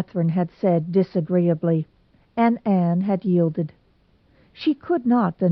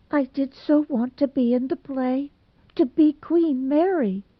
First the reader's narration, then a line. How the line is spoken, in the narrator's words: she sobbed